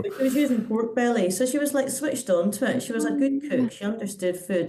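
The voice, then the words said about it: Posh-sounding British accent. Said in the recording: “I get accused a lot on social media of being posh because of my accent”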